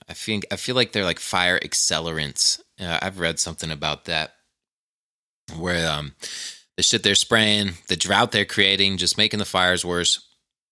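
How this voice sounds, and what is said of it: Strained, failing voice. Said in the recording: “I'm losing my voice here.”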